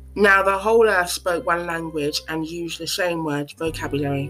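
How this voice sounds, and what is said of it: Slightly altered, lisping speech. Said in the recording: “my voice sounds a little bit funny. It's because I have aligners in and it will affect my speech slightly.”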